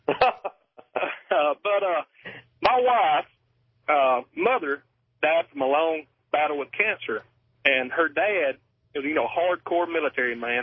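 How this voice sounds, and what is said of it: Southern US accent. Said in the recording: “I love your accent, by the way. ... when the southern guys call on the radio”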